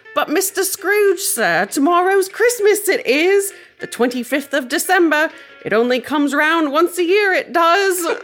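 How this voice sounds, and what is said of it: Exaggerated, unconvincing British accent. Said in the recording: “my British accent sounded like Dick Van Dyke and Mary Poppins”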